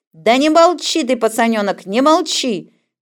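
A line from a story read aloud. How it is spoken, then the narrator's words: Shouting. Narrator (Russian): кричала усатая акушерка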